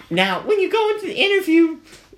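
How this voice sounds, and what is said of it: Imitates a woman's voice. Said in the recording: “Is that your black woman accent”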